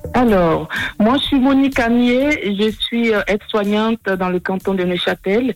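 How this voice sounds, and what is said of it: Ivorian French accent. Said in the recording (French): “Un accent qui vient de la Côte d'Ivoire”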